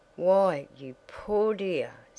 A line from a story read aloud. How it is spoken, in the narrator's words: sighed Mrs